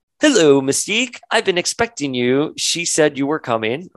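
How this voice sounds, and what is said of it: Put-on accent reading a line. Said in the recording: “I don't know why I said that accent there”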